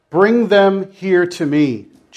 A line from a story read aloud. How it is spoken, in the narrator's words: Jesus said